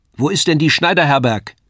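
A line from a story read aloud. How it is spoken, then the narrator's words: Woman calling across. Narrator (German): rief die Frau zu mir herüber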